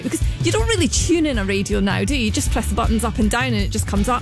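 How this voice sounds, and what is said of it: Scottish accent. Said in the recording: “my Scottish accent.”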